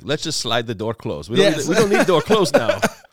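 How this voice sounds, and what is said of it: Put-on German accent. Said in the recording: “That's my German accent.”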